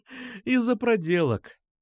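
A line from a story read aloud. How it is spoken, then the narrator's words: Tipsy laughter. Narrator (Russian): засмеялась Катя, быстро хмелее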